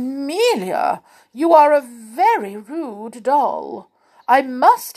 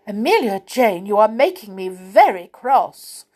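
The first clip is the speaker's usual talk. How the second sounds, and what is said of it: Fierce, angry voice. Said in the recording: “in a fierce voice”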